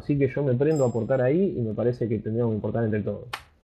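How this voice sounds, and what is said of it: Fast Argentine Spanish accent. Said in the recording (Spanish): “mi acento de acá de Argentina suena a veces, no sé, medio violento o algo... ¿por qué hablas tan rápido y parece agresivo como estás hablando?”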